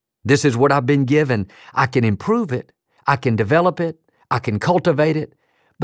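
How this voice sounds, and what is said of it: Texas twang accent. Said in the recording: “my Texas twang”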